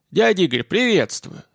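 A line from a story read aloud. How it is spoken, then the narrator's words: Deliberate deep voice. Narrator (Russian): старательно пробасил Данька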